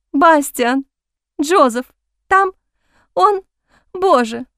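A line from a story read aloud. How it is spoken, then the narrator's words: Sobbing. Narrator (Russian): Она разрыдалась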